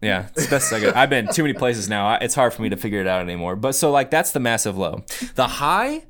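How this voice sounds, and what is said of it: Usual voice. Nothing is said of it.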